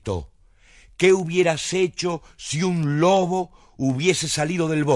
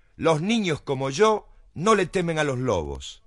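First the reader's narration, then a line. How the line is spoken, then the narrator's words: Plain answer. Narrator (Spanish): le contestó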